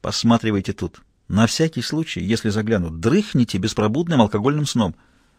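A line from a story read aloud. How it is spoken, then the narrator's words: Whispered order. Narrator (Russian): Мазур шепотом распорядился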